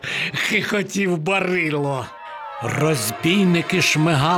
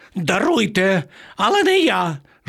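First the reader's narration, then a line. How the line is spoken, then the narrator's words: Pitiful squeal. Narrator (Ukrainian): жалюгідно заверещав пан Марво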